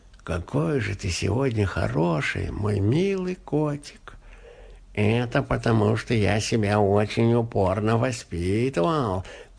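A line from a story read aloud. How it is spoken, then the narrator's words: Sleepy cat purring. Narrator (Russian): промурлыкал кот сквозь сон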